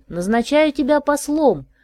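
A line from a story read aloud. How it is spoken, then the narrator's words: Hasty shout after someone. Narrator (Russian): поспешно крикнул вдогонку ему король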